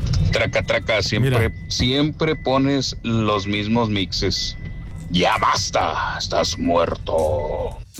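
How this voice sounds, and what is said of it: Put-on radio announcer voice. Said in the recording (Spanish): “quiere hacer voz de locutor”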